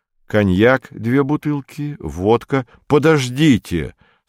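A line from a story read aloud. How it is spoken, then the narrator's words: Plain. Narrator (Russian): сказал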